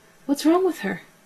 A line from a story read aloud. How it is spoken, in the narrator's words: she cried